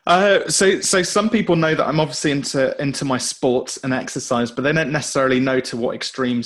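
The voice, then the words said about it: British accent. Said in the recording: “where the heck is his accent coming from? ... joining us from the UK ... the British accent is the best accent on planet Earth. Everything he says sounds smarter”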